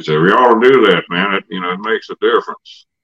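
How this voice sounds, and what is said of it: Imitates another person's voice. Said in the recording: “that's my best Jamie impersonation... spot on.”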